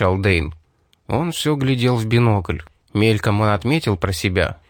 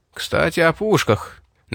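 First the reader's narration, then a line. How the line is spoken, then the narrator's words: Tense voice. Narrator (Russian): напряженным голосом произнес Рип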